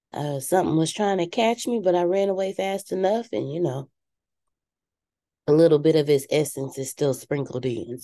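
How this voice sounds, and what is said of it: Voice sounds a bit sick. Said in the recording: “Please excuse my voice. ... Every year, I normally get like dog sick. And I started feeling it this year.”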